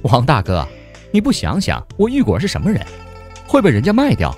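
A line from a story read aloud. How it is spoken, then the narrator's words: Giggling to tears. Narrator (Chinese): 玉果儿咯咯直笑，笑得眼泪都出来了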